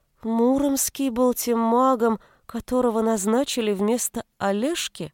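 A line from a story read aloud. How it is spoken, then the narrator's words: Slow speech. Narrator (Russian): медленно произнесла Аленушка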